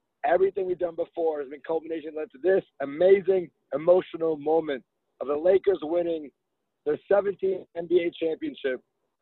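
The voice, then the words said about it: Hoarse, strained voice. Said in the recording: “I've lost my voice. I still haven't gotten it back”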